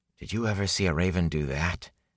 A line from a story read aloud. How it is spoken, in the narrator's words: He asked quietly